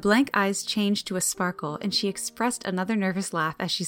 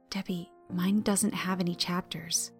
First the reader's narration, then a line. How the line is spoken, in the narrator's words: she whispered